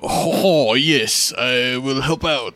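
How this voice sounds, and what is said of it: Very bad put-on accent. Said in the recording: “makes the shittiest fucking accent possible. It definitely does not sound good.”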